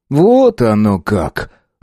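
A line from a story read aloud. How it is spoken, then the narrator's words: Mocking drawl. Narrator (Russian): с насмешкой протянул самбур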